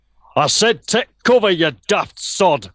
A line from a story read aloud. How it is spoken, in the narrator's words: bellowing